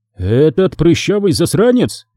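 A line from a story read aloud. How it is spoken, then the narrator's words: Astonished exclamation. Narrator (Russian): изумленно воскликнул Мараска, не веря своим ушам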